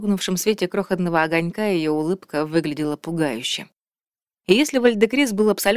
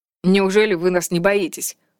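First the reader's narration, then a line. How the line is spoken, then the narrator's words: Scoffing snort. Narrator (Russian): фыркнул Вальдекрис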